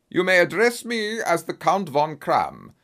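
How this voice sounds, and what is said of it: Deep booming strong German accent. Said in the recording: “he asked in a strong German accent. His deep, booming voice broke the silence of the room.”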